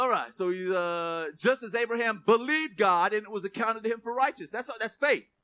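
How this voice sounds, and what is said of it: Usual voice. Nothing is said of it.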